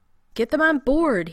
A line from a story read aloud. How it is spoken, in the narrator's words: he shouted back to the Marines